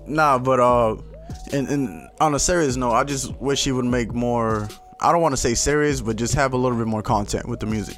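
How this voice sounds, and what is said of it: Speaks with an accent. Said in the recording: “Don't mind the accent.”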